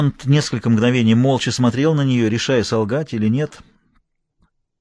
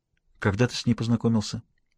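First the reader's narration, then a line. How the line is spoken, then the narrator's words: Unexpectedly quiet question. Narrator (Russian): Дэви спросила неожиданно тихим голосом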